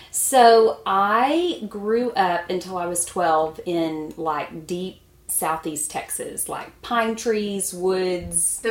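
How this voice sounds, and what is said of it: Southern US regional accent. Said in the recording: “she's not from Minnesota ... Is that precious accent stem from?”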